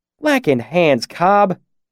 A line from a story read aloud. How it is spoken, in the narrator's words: Carter said, his voice thick with reproach